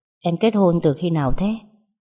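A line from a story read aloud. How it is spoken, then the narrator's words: Sighing question. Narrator (Vietnamese): thở dài rồi hỏi tôi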